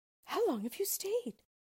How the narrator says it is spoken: cried she, gaping, rubbing her eyes and stretching herself as if she had been just waked out of her sleep

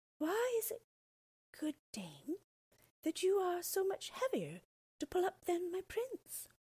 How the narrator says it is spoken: Rapunzel said dreamily

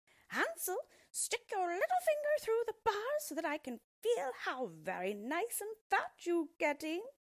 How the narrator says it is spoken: the old witch hobbled out to the yard and cried out shrilly

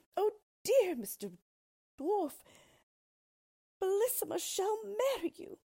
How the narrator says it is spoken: the poor queen, who was trembling like a dove when it sees a hawk, cried out as loud as she could

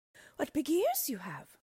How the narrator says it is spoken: she exclaimed wonderingly

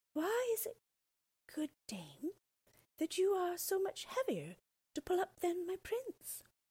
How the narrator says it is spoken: Rapunzel, who could think of nothing but her prince, said dreamily

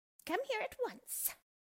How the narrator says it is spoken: she shouted at Dorothy

